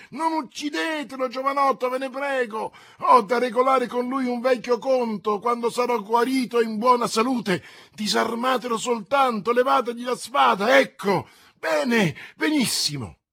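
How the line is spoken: Involuntary exclamation. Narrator (Italian): Tale esclamazione fu strappata da Athos dalla spada di Cahusac, schizzata a 20 passi da lui

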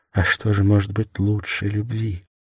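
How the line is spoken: Modest voice. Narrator (Russian): Голос ее был скромен

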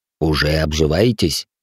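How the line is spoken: Wry snort. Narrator (Russian): хмыкнул вошедший маг

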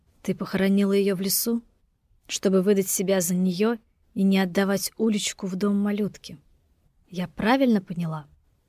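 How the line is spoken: Dry, tragic question. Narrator (Russian): Сухо, трагическим голосом спросила она

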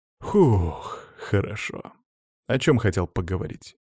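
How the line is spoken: Composed, sighing. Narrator (Russian): собрался, вздохнул

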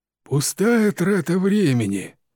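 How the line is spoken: Grumbling. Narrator (Russian): проворчал мистер Питерсон

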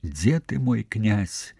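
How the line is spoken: Whispering. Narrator (Belarusian): шаптала Дабранега

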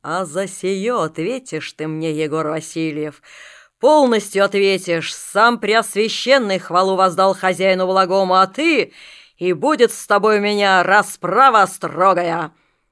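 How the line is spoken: Deep growl from the belly. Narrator (Russian): будто из живота рыкнул

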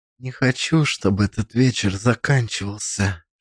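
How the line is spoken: Whispered in ear. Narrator (Russian): шепнула мне на ухо

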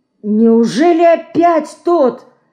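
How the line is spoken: Horrified exclamation. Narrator (Russian): с ужасом воскликнула Катя

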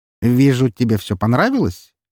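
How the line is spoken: Cheerful. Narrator (Russian): весело произнес Андрей

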